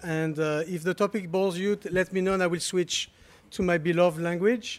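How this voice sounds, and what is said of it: Non-native English accent. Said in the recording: “you're going to have to put up with 10 minutes of my accent”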